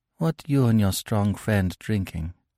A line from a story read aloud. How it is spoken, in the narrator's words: she said softly